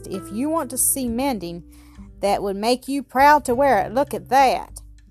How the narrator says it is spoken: he exclaimed at last

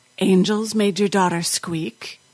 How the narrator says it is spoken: The doctor sighed

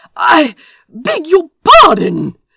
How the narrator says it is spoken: Azra spluttered, coughing

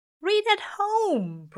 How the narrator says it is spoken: Brian wails, as if Aziraphale has just suggested they murder dog

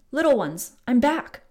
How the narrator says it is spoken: called out

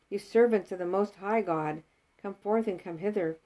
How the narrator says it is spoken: cried out

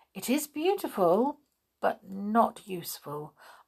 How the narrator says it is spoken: answered the king gently

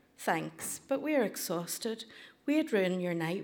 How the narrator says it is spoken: said, letting him down gently

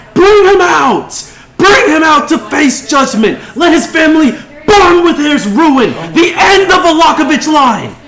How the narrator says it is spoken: she yells

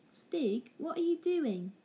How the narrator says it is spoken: exclaimed Barney

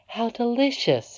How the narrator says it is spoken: exclaimed the princess

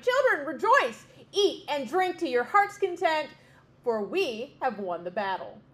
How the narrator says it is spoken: the king and queen cried

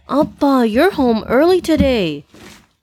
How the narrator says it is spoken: Omari exclaimed

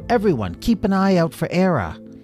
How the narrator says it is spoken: she called out to the crew

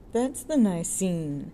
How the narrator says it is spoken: sneered the second undergraduate

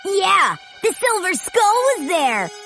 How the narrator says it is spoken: he exclaimed

